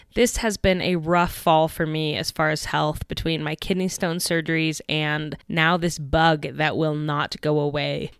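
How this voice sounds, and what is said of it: Sick-sounding voice. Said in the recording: “You can probably hear it in my voice, but I am still sick.”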